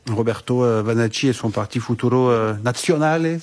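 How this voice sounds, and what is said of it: Put-on Italian accent. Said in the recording (French): “avec l'accent italien ... très bel accent”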